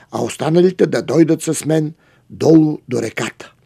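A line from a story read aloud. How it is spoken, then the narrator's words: King's command. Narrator (Bulgarian): заповядал царят на последните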